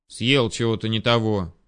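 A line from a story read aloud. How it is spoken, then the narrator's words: Angry. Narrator (Russian): зло зыркнул на него я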